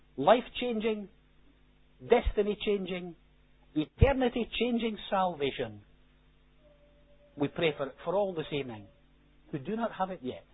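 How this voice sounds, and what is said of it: Posh accent. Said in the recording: “my posh accent”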